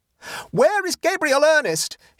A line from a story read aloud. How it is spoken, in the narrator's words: he almost screamed